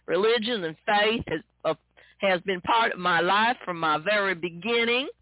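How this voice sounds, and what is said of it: Put-on Texas accent. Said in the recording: “I'm going to use this Texas accent”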